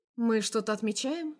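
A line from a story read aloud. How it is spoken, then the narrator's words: Asked cheerfully. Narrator (Russian): спрашиваю бодро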